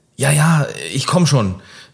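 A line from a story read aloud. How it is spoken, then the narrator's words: Mother calling downstairs. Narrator (German): rief Mutter nach unten aus der Stube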